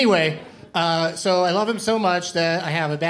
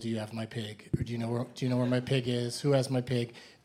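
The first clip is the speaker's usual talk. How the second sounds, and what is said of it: Bad Nicolas Cage impression. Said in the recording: “a bad impression I do of him from the movie Pig”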